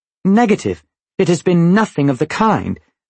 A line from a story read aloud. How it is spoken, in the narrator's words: the commendatore said curtly